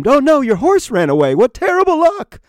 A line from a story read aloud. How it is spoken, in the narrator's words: the neighbors exclaimed